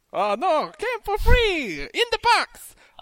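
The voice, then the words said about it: Exaggerated put-on Italian accent. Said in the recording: “did you also buy that accent with your PS4? Because that's crazy. ... I don't want that accent from the guy in Hey Arnold. ... He was the best Italian guy you've ever met”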